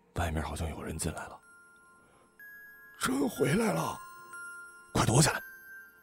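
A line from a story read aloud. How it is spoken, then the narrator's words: Hushed urgent. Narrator (Chinese): 周汝波 压低声音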